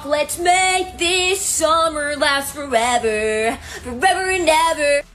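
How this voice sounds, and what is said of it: Emo pop punk singing impression. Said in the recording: “my impression of every emo pop punk song from the early 2000s”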